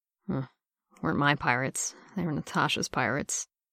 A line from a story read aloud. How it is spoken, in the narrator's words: let out a soft, incoherent sound and muttered